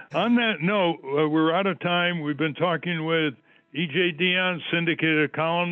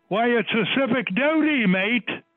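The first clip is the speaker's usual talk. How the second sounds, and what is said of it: Put-on Australian accent. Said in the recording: “just make sure you do the right accent ... I won't try the Aussie accent.”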